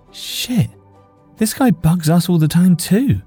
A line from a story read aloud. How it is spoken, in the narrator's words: she called out